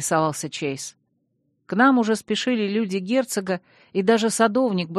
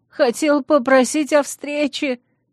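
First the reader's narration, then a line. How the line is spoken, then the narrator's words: Whining. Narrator (Russian): заскулил репортер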